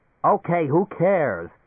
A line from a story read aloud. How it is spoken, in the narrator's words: Leo said irritably